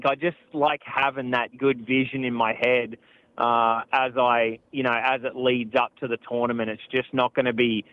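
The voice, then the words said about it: Australian accent. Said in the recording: “he's from Australia ... if you couldn't tell by the great accent, he is from Australia”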